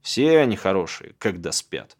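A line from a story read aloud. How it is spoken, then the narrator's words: Old man grunting. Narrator (Russian): хмыкнул дед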